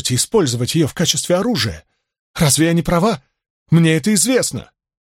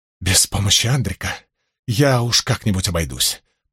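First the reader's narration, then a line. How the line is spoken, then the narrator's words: Mutter. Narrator (Russian): пробормотала Аматера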